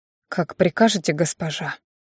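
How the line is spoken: Waiter's whisper. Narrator (Russian): сорвался шепот с губ официанта

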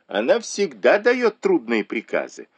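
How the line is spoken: Group laughing. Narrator (Russian): засмеялись сидевшие за столом

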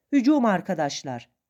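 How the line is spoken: Shouted battle cry. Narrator (Turkish): diye bağırdım

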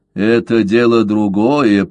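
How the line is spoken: Grumbled. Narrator (Russian): проворчал Каузак

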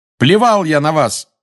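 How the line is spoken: Shouting. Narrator (Russian): закричал Гарри

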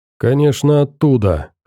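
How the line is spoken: Wry snort. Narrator (Russian): хмыкнул Фил

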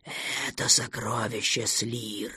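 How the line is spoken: Quieter, uncertain triple whisper. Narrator (Russian): прошептал тройной голос, но сейчас он показался Никту тише и неувереннее

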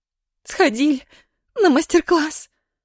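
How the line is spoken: Upset sobbing. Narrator (Russian): расстроенно всхлипнула Ира

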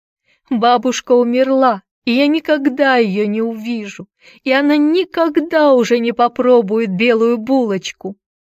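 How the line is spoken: Loud sobbing, choking on tears. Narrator (Russian): Она громко рыдала и твердила, давясь слезами

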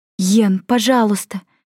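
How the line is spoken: Fearful trembling plea. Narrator (Russian): взмолилась Майми, чувствуя, что дрожит от страха

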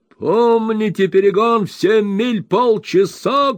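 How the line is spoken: Shouting. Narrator (Russian): кричал Уордль

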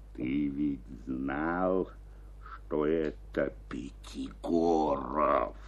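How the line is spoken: Hoarse undertone. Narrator (Russian): Хрипел через минуту Евстрат Спиридонович вполголоса

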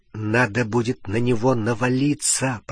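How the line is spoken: Whisper in ear. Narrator (Russian): прошептал Гарри на ухо Рону

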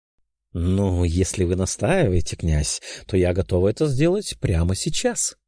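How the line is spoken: Purring. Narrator (Russian): промурлыкала графиня

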